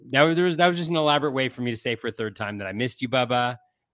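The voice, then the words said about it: Slightly nasal voice. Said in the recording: “I got COVID last week ... you can tell I'm a little bit nasally”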